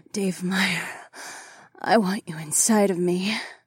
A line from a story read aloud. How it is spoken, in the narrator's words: Fila gasped